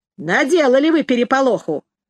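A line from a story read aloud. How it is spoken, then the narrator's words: Angry. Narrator (Russian): сердито говорил Ромка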